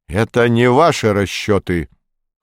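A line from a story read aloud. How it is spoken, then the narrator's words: Cold, raised voice. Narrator (Russian): холодно возразил Игорь Петрович, тоже повышая голос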